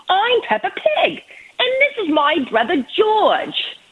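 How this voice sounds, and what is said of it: Put-on British accent. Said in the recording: “my amazing British accent”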